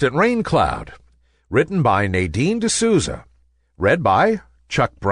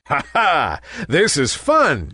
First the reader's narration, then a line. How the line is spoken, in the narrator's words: chuckled Nimbus